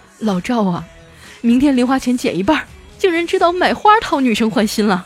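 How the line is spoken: Choked up, deeply moved. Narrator (Chinese): 我妈感动的一塌糊涂啊，哽咽着对我爸说

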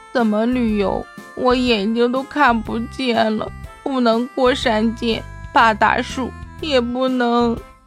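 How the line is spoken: Sobbing, breaking off. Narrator (Chinese): 他哭得说不下去了

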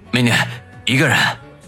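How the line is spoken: Trembling voice. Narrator (Chinese): 声音略微颤抖地说

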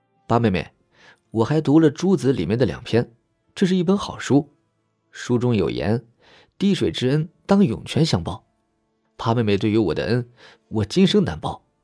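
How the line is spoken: Soft laughing voice. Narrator (Chinese): 他轻轻笑着，继续道

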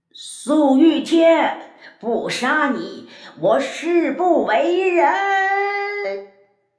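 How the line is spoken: Far-carrying echoing cry. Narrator (Chinese): 回音将他的声音传出去很远很远

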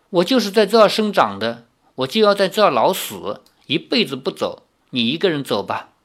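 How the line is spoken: Cold. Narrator (Chinese): 赵灵儿冷冷地说

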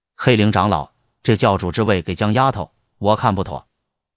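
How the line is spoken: Deep, grave voice. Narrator (Chinese): 洪平天此刻深吸了一口气，沉声对黑灵说道

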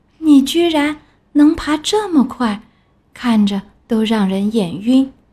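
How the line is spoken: Slow, leisurely. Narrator (Chinese): 蜗牛慢慢悠悠地说

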